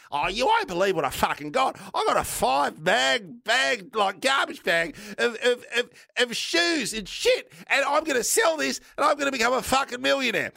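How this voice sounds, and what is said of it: Imitates another person's voice. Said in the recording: “my impression of you, Bev”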